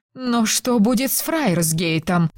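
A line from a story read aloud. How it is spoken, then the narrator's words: Moaning. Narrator (Russian): простонала Розамунда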